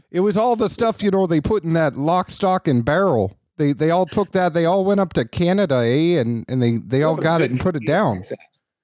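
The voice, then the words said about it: Put-on Canadian accent. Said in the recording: “You have a very good Canadian accent.”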